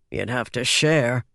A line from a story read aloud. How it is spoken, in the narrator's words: muttered a third